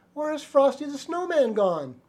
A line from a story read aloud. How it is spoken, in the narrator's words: the children cried